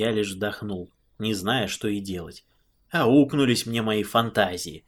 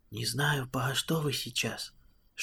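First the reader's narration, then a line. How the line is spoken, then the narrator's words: Whispered mumbling. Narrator (Russian): шепотом забубнил владыка Николай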